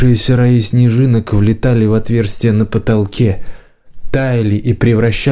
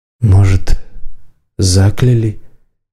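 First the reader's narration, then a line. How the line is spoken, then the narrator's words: Quiet woman's question. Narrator (Russian): тихо спросила женщина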